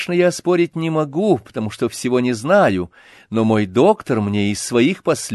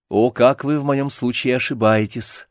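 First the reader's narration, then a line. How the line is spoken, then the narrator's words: Patient, quiet and conciliatory. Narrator (Russian): подхватил швейцарский пациент тихим и примиряющим голосом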